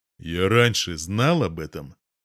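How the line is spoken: Icy question. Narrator (Russian): ледяным тоном спрашиваю

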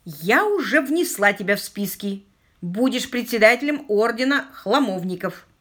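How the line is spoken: Barked. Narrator (Russian): рявкнула Аманда

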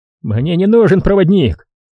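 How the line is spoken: Snapping retort. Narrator (Russian): огрызнулся Тараон

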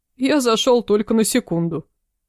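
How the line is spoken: Chuckling man. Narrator (Russian): хохотнул дядька

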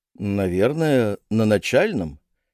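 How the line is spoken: Uncertain elderly voice. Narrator (Russian): неуверенно предположил пожилой ученик

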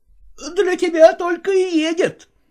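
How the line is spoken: Interjecting, then shouting. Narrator (Russian): вставил слово Гриша и закричал

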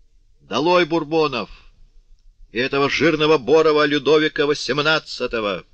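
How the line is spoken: Thunderous shout. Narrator (Russian): закричал громовым голосом

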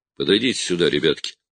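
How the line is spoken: Gentle call. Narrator (Russian): мягко подозвал их Строн

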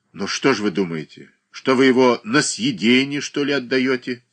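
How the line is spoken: Stern question. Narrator (Russian): строго спросил Боголюбов

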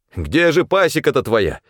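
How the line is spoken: Irritated shout. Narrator (Russian): не скрывая раздражения, крикнул снабженец

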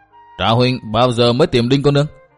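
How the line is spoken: Playful teasing question. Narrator (Vietnamese): Với giọng cười hóm hình, Dịch Thiên Hành hỏi

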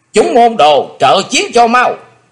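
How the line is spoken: Loud shout. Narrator (Vietnamese): quát lớn

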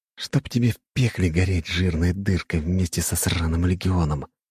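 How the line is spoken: Muttered under breath. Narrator (Russian): пробормотал Слай себе под нос

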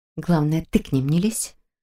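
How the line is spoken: Quiet reply. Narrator (Russian): так же тихо ответила она

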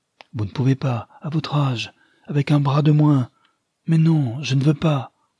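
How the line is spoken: Shouting angrily. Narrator (French): en criant

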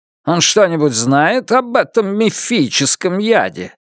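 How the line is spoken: Slightly mocking. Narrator (Russian): Лун слегка насмешливо ответил

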